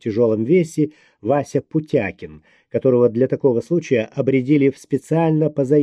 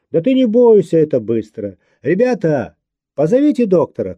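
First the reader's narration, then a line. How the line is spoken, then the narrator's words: Shouting down corridor. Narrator (Russian): крикнул в коридор Женя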